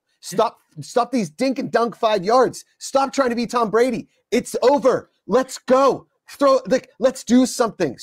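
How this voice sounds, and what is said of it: Yelling, agitated loud voice. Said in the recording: “Sorry, I'm yelling.”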